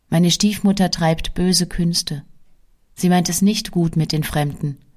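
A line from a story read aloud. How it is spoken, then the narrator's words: Sighing girl. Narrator (German): Das Mädchen seufzte und sprach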